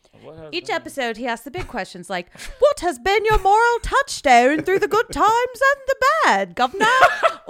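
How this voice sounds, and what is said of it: Haughty put-on British accent. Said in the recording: “You've got to do this in like a haughty British accent.”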